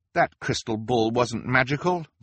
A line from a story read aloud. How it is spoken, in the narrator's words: Violet translated angrily